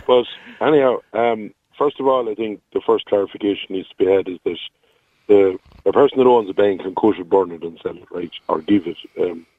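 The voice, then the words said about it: Slightly hoarse voice. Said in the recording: “I'm a small bit hoarse ... it's pretty hard in the throat if you're trying to shout”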